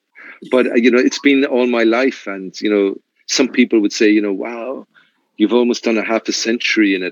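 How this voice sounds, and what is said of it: Irish accent. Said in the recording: “it's the Irish, ... it's the Irish accent.”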